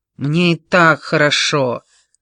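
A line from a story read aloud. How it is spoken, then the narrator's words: Irritated grumble. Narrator (Russian): раздраженно буркнула Дейзи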